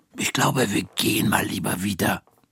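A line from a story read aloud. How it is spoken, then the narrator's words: Whispering. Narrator (German): flüstert Frau Krüger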